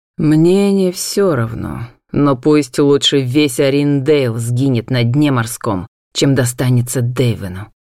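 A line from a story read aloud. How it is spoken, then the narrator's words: Through gritted teeth. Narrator (Russian): процедил Натан сквозь зубы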